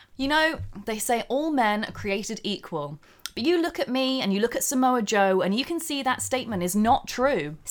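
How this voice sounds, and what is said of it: Posh English voice, Scott Steiner promo. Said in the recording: “a very soft thing like your posh English accent ... something really intense, like Scott Steiner ... even put on the voice that I used to call my parents, which is the slightly posher one.”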